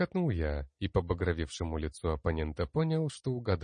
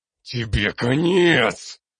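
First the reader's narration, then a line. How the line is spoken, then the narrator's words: Hissed, jarl. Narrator (Russian): Прошипел ярл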